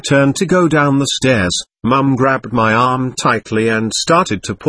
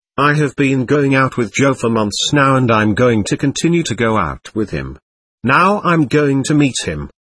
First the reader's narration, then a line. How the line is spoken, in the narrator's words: said in a very clear voice